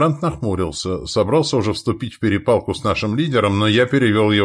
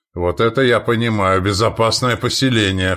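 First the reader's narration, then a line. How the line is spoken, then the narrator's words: Smirking grunt. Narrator (Russian): хмыкнул Яволод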